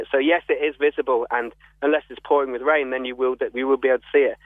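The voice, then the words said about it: London accent. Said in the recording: “I can tell by your accent, you're not a local ... I'm from London”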